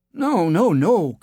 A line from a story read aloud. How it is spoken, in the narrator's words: cried the king